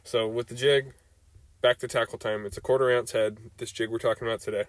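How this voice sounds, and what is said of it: Groggy, slightly off voice. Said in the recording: “my voice is kind of groggy ... if I sound a little off”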